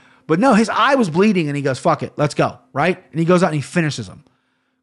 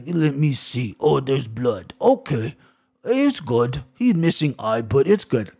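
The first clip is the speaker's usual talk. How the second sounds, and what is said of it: Poor put-on Russian accent. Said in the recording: “Terrible Russian accent.”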